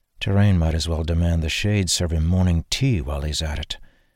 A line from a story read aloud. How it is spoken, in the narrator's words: he said under his breath